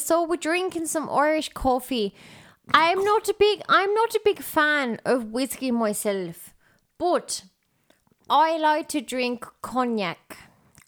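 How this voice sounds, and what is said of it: Put-on Irish accent. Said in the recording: “We love the accent. ... And we just pretend to be anywhere close. ... This is my pretend Ireland accent.”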